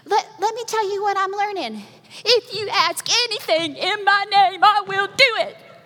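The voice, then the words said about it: Put-on Alabama Southern accent. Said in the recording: “she has very Alabama Southern accent.”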